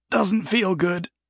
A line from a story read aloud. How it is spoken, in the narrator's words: Jason croaked